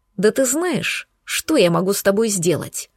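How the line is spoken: Hissed. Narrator (Russian): прошипел он

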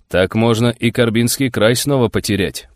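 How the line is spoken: Mutter. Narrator (Russian): пробормотал государь

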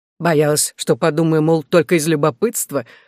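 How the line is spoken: Chuckling. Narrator (Russian): хохотнул

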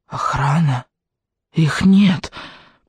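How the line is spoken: Hoarse rasp. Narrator (Russian): прохрипела она

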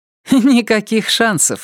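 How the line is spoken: Laughing. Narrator (Russian): рассмеялась Полли

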